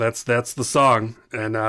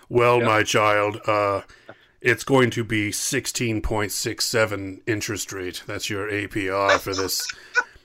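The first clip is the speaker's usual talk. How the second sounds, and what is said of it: Character voice playing God. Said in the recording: “this is my God impression.”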